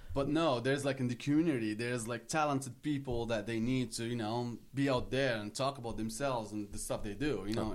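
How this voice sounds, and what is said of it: Moroccan-accented English. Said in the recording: “I'm hearing an accent, dude. ... I'm from Morocco.”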